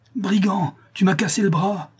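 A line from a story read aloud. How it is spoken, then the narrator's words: Pained cry. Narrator (French): s'écria-t-il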